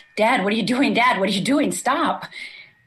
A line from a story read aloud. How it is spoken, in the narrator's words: I yell back